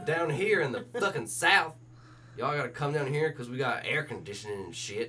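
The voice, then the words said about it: Put-on Southern US accent. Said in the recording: “why would they be saying it with a southern accent?”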